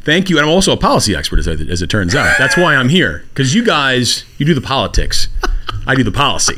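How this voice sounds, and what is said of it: Smooth radio-announcer voice. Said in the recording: “he has a great radio voice”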